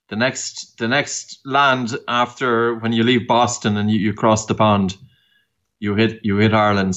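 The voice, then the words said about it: Noticeable non-American accent. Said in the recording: “based on your accent, probably people can hear it already.”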